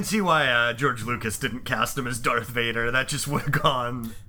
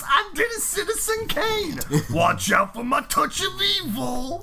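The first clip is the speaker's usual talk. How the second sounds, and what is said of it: Imitates another person's voice. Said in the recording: “great Orson Welles impression”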